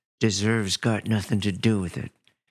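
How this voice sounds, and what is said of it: Imitates another person's voice. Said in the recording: “like my Clint Eastwood imitation”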